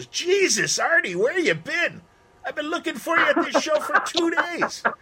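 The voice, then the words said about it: Quoted line in Canadian accent. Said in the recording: “in that great Canadian accent.”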